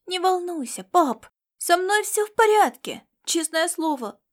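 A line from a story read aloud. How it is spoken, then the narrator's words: Reassuring exclamation. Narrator (Russian): воскликнул он, видя его беспокойство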